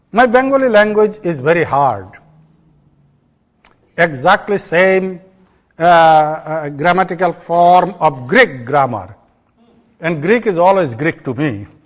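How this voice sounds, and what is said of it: Bengali-accented English. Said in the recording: “I have my own accent. English is not my language. I speak in Bengali and a couple others.”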